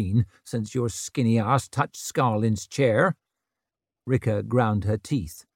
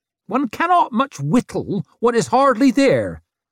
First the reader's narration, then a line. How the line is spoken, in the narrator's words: snapped Isern